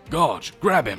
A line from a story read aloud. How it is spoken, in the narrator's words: shouts